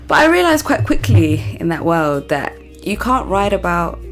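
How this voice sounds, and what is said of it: American accent. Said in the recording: “Why am I talking in an American accent?”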